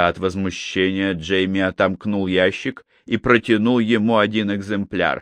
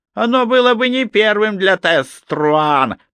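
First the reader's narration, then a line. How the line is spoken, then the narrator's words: Little man hissing. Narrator (Russian): прошипел человечек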